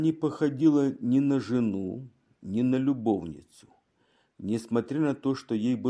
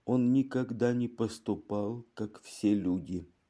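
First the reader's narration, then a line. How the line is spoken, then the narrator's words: Calmed woman whispering. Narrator (Russian): Внезапно успокоившись, женщина прошептала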